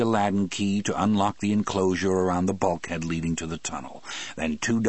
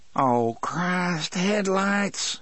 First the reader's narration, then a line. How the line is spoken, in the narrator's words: Harry moaned